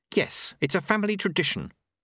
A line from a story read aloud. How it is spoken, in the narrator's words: Susan snapped